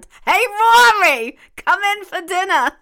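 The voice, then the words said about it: Old lady New York accent. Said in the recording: “you gotta say it as an old Jewish lady ... That comes out like a New York accent.”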